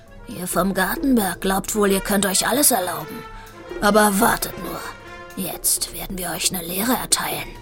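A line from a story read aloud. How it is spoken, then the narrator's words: Big tomcat growling. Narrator (German): Ein großer, schwarz-weißer Kater mit einem blutigen Kratzer quer über der Nase knurrte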